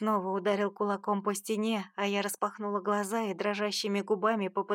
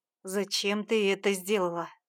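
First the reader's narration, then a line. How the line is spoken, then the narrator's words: Growled again. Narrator (Russian): снова прорычал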